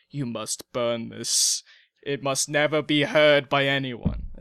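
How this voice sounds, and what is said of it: Put-on accent. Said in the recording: “What kind of accent are you doing?”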